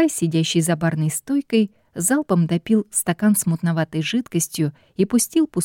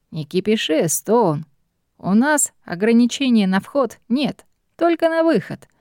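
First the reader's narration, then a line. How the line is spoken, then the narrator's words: Chuckling. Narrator (Russian): хохотнул бармен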